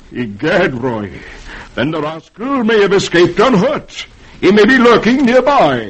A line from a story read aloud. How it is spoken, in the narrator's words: Dangerfield exclaims